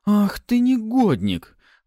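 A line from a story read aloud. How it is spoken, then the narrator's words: Exclaiming. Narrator (Russian): Воскликнула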